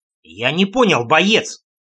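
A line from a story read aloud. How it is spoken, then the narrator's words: Near bark. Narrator (Russian): Чуть не рявкнул я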